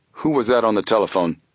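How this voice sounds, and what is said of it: Deep male voice. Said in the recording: “Suddenly asked a deep voice.”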